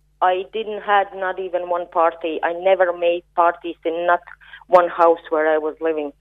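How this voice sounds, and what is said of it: European accent. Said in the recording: “I can hear by your accent ... that's Europe”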